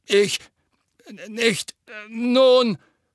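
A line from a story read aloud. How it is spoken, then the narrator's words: Stammering. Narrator (German): stammelte Fatsch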